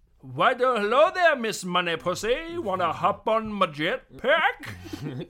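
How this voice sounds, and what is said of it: Bad James Bond impression. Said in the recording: “worst James Bond impression”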